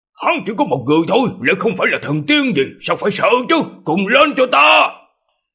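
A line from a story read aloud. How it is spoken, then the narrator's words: Glaring loud shout. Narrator (Vietnamese): Mông lão gia của Nam Thành trừng mắt lên quát to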